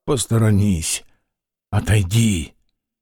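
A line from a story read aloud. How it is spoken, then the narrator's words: Muffled angry voice. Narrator (Russian): Яков Тарасыч глухим и сердитым голосом сказал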